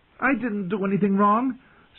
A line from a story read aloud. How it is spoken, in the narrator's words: pleaded